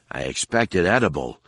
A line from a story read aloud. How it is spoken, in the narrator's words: Han mumbled around the piece